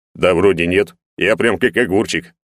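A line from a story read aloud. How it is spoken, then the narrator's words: Smirking grunt. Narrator (Russian): хмыкнул Егор в ответ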